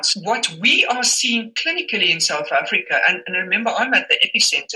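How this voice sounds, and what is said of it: Germanic-sounding Boer accent. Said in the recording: “If you wonder what that accent is, um, she obviously was original speaker of Boer... That sounds very Germanic.”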